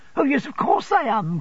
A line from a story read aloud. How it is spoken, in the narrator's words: cried Dora